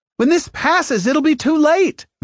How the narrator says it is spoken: Mattis snapped back

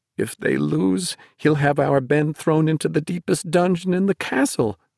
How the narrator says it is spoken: she moaned

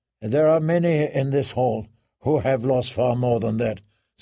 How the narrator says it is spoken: said John

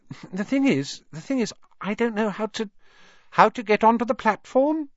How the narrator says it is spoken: she said kindly

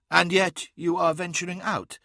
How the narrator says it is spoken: asked Sobek

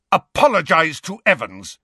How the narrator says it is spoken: James roared at Snape

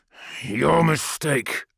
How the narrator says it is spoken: I snarled

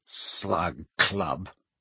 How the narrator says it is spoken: repeated Ron with a sneer worthy of Malfoy

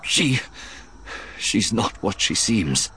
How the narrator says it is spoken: Dion gasped

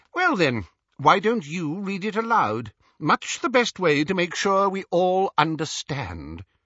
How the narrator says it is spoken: inquired Xenophilius sharply

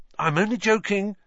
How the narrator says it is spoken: Ron added hastily

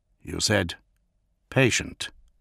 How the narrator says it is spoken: Gilliman said quietly

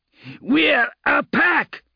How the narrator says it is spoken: Ake shouted

